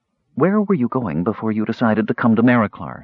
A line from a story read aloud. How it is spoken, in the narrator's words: she asked